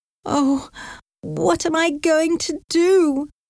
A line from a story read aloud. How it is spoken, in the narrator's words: cried